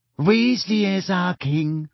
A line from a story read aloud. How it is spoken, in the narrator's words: dreamily under her breath